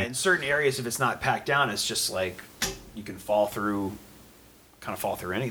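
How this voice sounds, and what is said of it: Usual voice. Nothing is said of it.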